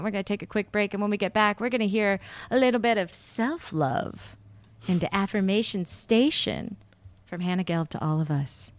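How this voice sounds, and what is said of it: Radio announcer voice. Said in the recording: “Do you like my radio voice?”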